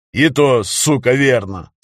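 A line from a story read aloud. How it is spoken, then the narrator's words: Plain. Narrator (Russian): сказал Виталик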